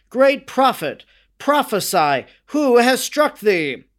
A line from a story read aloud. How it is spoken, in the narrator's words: cried out